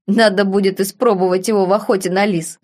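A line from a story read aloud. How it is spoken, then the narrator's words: Chuckling baron. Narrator (Russian): хохотнул барон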